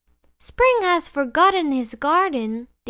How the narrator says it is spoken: they cried

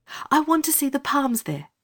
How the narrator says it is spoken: said Anthea hastily

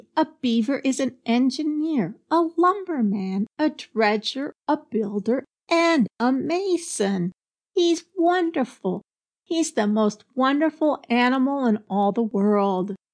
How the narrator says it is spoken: he exclaimed

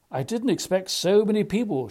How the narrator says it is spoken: confessed with a yawn that turned into a smile quickly

